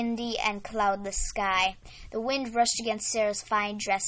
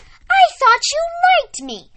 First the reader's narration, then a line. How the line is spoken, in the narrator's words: Sarah exclaimed, feeling something she had never experienced